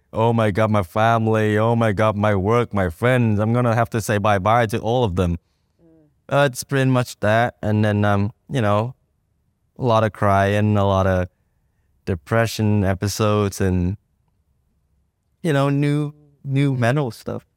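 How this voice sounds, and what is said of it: Vietnamese accent. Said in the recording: “Vietnamese accent”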